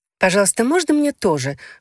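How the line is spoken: Eager childlike exclamation. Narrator (Russian): воскликнула женщина помоложе, как ребенок, позабывший о том, что выпрашивать угощение невежливо

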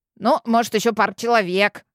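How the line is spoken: Mutter. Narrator (Russian): пробурчал мой фамильяр

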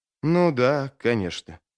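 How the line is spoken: Bewildered mumble. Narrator (Russian): пробормотал Джизаль, не имея ни малейшего представления, что делать дальше

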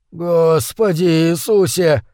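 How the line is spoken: Hoarse whisper. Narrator (Russian): хрипло прошептал Гудлоу

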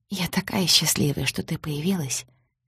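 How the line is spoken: Quiet heartfelt speech. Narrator (Russian): тихо и проникновенно произнесла Лиля

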